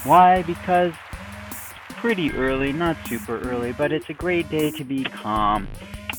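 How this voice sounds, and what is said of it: Calm, soothing voice. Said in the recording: “I'm going to be talking in a calm voice today.”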